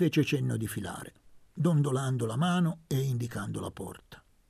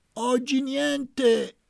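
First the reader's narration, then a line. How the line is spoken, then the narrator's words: Shouted. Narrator (Italian): gridò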